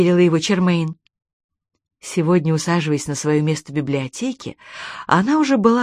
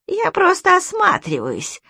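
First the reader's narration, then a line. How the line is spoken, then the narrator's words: Thin crackling voice. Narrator (Russian): ответил Кальцифер своим тоненьким трескучим голосом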